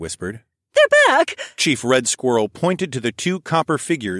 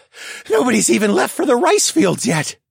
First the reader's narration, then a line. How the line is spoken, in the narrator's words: Black Turtle panted